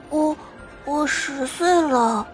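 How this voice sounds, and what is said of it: Timid small child speaking quietly. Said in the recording (Chinese): “壮壮小声说着，身子还不自觉地躲了躲”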